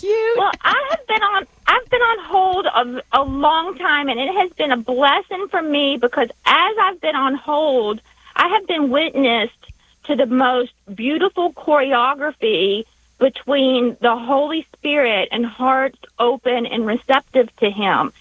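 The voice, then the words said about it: Southern American accent. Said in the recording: “because of my accent? ... that cute little Southern accent.”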